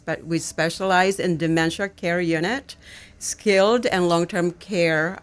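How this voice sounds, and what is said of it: Speaks with a noticeable accent. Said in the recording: “the accent probably ... Will come out.”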